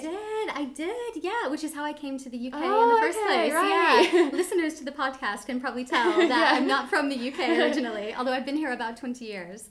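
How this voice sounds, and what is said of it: Strong American accent. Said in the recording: “Your accent's still so strong ... your accent, though, makes you always sound super happy”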